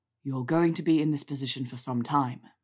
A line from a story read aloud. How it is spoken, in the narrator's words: Draco said in rumbling tones